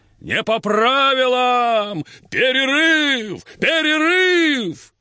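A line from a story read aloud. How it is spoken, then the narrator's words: Shouting. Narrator (Russian): Джексон крикнул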